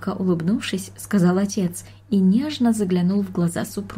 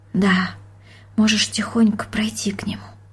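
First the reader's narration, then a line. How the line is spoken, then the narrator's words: Mother whispering. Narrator (Russian): прошептала мать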